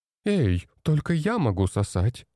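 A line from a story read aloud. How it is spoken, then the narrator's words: Laughing. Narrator (Russian): рассмеялась она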